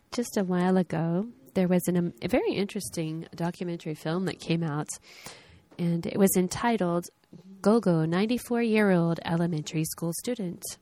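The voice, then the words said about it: Hoarse, fading voice. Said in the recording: “I'm finally losing my voice”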